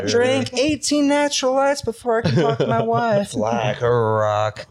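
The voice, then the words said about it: Sung in falsetto. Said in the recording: “Listen to that falsetto ... That was ... fucking beautiful”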